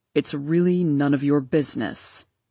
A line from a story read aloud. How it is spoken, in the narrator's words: he answered coldly